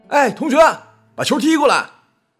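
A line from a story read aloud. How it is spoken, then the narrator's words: Fierce excited shout. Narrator (Chinese): 阿朱正杀的兴起，面目狰狞的朝那边大喊了一声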